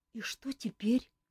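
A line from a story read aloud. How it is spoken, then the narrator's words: Frightened question. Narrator (Russian): испуганно спросила Ольга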